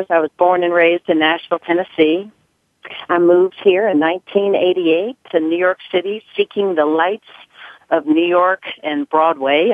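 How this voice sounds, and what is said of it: Slight Southern US accent. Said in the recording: “I have a little bit of a southern accent”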